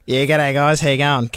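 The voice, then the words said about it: Exaggerated put-on Australian accent. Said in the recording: “I'm really putting on the Australian accent”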